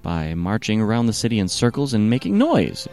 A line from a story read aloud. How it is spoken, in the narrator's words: exclaimed Joshua